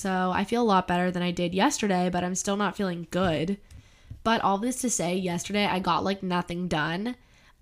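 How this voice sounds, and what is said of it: Sick-sounding voice. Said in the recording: “you can tell I'm sick. Like I sound sick.”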